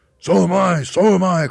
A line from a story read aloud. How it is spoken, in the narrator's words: cried Mr